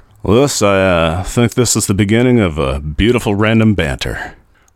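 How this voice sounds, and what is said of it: Poor imitation of another person's voice. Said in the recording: “That was a terrible Bogart impersonation.”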